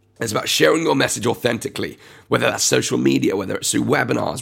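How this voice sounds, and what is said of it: Strained, deteriorating voice. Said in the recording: “my voice is getting worse ... This is rough.”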